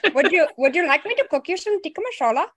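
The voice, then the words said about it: Put-on Indian accent. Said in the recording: “when you do an Indian accent ... I can do a very good Indian accent.”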